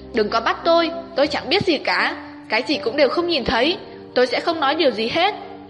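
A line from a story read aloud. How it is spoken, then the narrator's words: Loud. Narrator (Vietnamese): Tiểu Tiểu lớn tiếng nói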